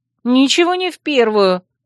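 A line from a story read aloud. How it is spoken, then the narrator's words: Indignant. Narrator (Russian): возмутилась я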